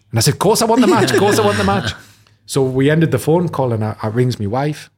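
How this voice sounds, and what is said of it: Geordie accent. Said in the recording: “my typical Geordie accent”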